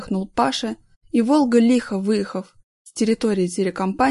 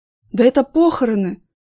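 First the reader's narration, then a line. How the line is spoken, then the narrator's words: Exclaiming. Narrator (Russian): воскликнул Вася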